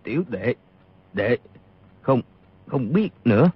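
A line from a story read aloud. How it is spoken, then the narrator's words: Trembling voice. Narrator (Vietnamese): Y run rẩy nói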